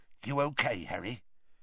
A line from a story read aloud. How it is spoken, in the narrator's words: Hagrid muttered